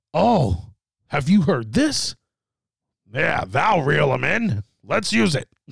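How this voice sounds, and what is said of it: Imitates another person's voice. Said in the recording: “That's my Vince McMahon impersonation.”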